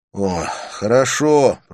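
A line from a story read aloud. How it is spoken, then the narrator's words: Grumbling mutter. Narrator (Russian): пробурчал Люк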